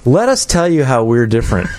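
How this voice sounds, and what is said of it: Impersonates a college tour guide. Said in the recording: “my impersonation of every college tour there is”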